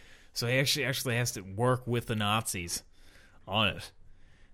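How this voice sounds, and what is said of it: Usual voice. Nothing is said of it.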